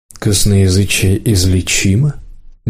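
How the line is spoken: Soft. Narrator (Russian): мягко сказал Рысюк

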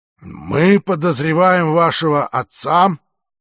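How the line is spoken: Reluctantly forced out. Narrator (Russian): наконец выдавил он из себя

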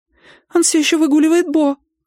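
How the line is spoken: Squeaked, frail voice. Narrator (Russian): пискнула хрупкая помощница

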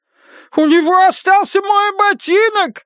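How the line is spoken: Shrieking. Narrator (Russian): завопил коротышка

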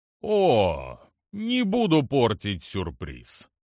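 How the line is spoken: Good-natured drawl. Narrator (Russian): благодушно протянул генерал

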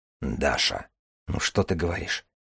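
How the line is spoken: Quiet. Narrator (Russian): тихо сказал Дар

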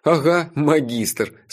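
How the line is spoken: Laughing while speaking. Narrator (Russian): сквозь смех сказал я

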